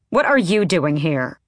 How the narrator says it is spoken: Manon snapped

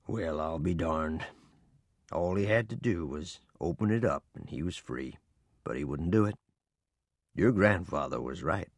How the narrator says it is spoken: In a low voice, Papa said

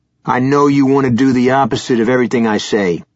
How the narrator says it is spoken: he snapped

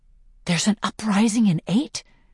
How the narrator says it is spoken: He says in a hushed voice

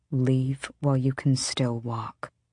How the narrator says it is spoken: Sorrel said softly

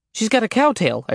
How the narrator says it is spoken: I blurted

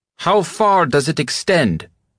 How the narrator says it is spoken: he shouted

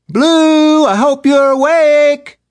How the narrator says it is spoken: Orla screamed from downstairs

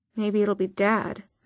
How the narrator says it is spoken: muttered Izzy

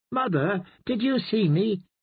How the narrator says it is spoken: he burbled happily

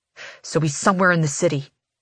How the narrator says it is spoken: he snaps

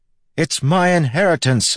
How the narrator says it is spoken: I yelled back

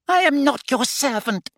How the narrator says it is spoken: he squeaked

